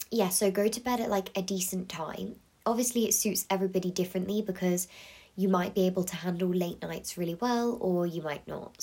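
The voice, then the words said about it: Congested, blocked-nose voice. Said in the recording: “I sound really weird. ... I feel like my voice does not sound normal because I've got a bit of a blocked nose ... I don't sound the same as usual”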